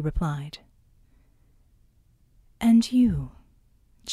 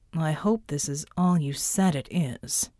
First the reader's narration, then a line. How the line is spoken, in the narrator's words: the man said in a neutral voice